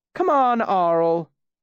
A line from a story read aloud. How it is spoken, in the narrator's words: Shandy called out